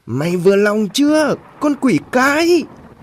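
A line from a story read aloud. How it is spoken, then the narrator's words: Screaming woman. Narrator (Vietnamese): bà Hoài gào lên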